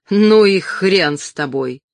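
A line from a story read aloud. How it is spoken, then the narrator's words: Creature barking, Brooklyn accent. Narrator (Russian): Создание с чистым бруклинским акцентом рявкнуло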